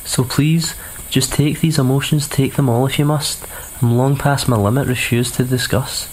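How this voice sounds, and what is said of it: Scottish accent. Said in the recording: “Love the accent ... That's the first Scottish poet we've had on the show”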